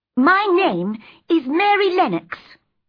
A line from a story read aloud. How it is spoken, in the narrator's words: she said crossly